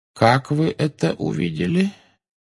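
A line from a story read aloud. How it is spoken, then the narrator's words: Calm question. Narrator (Russian): спокойно спросил Дамблдор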